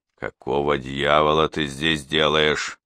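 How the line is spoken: Angry grating through teeth. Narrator (Russian): Сквозь зубы проскрипел я, злобно

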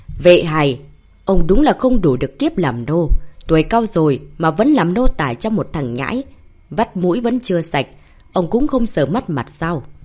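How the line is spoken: Sudden raised voice. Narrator (Vietnamese): Long Vương đầu chọc bất chợt lên tiếng, lão ta cao giọng nói với Vệ Hải

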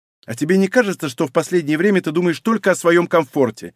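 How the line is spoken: Snapping, irritated. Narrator (Russian): огрызнулась девушка

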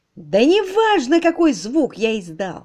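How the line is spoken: Exclaiming. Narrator (Russian): воскликнул

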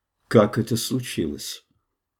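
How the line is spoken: Extremely calm voice. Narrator (Russian): вопроса, заданного леди Таней, чрезвычайно спокойным голосом

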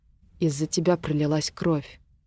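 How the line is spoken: Quiet. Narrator (Russian): тихо сказал Артур

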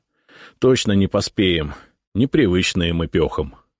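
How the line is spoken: Sighing. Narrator (Russian): вздохнул Исаул

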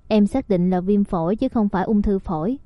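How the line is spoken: Gentle question. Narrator (Vietnamese): Cố Chi nhẹ nhàng hỏi một câu

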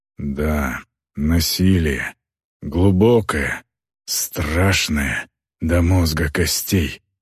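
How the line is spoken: Muttering. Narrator (Russian): пробормотал он

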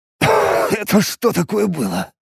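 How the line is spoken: Hoarse rasp. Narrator (Russian): прохрипел

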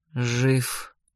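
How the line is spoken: Quiet reply. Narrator (Russian): тихо ответил он

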